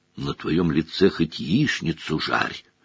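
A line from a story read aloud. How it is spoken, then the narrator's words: Whisper. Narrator (Russian): шепнул Рон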